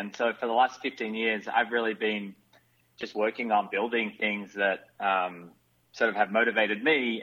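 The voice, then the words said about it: Australian accent. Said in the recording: “you can probably tell from my accent, I'm not from America. So I'm an Australian”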